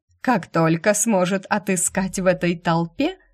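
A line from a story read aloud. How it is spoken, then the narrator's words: Interjecting with dry laugh. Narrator (Russian): вмешалась леди Марджери, скупо рассмеявшись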